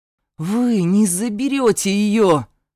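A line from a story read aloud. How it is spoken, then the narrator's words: Indignant growl through teeth. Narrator (Russian): прорычал я и, стиснув зубы, возмущенно засопел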